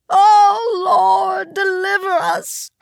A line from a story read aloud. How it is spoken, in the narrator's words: Their mother screamed